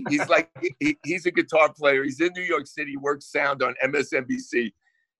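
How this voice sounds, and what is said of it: Thick New Jersey accent. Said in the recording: “my Jersey accent just went from about 15 to about 85 ... It's going to be thick.”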